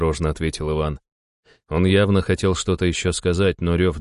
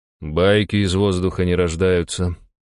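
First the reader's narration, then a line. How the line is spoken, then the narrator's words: Sigh. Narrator (Russian): вздохнул я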